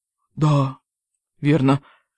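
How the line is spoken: Quiet. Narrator (Russian): тихо произнес

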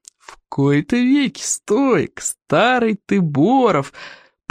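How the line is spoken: Thundering female voice. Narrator (Russian): прогремела она

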